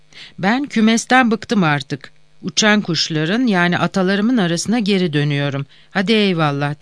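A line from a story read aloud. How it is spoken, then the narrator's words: Plain. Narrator (Turkish): dedi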